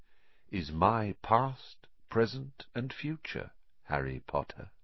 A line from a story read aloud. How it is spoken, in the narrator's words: said Riddle softly